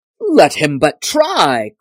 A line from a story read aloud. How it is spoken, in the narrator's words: cried the tinker